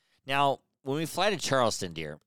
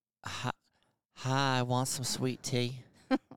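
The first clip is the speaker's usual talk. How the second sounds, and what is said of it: Put-on woman's regional accent. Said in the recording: “That's a woman's accent.”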